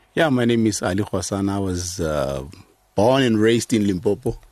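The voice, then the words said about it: South African accent. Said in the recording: “a South African that lives in America ... your accent has not been diluted at all”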